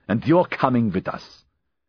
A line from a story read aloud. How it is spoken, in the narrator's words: he snapped